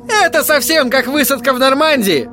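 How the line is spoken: Shout. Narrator (Russian): кричал мне Тедди

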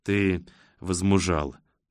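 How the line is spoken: Gentle smiling father. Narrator (Russian): мягко улыбается ему отец

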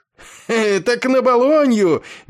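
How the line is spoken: Spoken through laughter. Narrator (Russian): между взрывами хохота выговорил он

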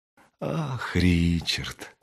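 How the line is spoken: Tender. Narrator (Russian): сказала она ласково

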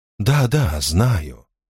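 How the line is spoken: Heavy sigh. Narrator (Russian): Орфей тяжело вздохнул

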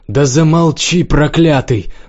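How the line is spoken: Sudden shrill cry. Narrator (Russian): вдруг тонко выкрикнула женщина

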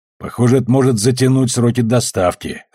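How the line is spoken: Snorted. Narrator (Russian): хмыкнул Амос

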